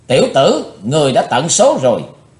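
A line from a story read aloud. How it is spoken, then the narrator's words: Angry loud shout. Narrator (Vietnamese): hắn còn giận dữ quát lớn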